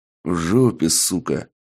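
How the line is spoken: Stern terse reply. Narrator (Russian): строго и лаконично ответил я

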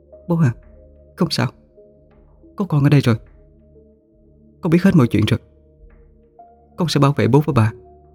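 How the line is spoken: Moved, soft. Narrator (Vietnamese): Khanh xúc động khẽ nói

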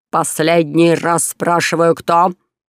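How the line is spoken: Barked. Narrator (Russian): рявкнул граф Спина

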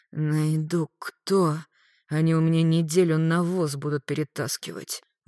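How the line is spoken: Gloomy addition. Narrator (Russian): Мрачно добавил Магарыч

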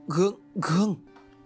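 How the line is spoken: Stammering. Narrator (Vietnamese): Thầy liền lắp bắp

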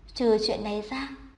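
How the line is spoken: Smiling. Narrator (Vietnamese): Trần Minh Sinh mỉm cười

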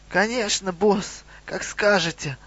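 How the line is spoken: Strained goblin babble. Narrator (Russian): залепетал гоблин слегка сдавленным голосом

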